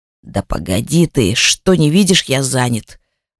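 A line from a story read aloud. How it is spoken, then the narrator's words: Old man's grumbling. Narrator (Russian): раздается в ответ старческое ворчание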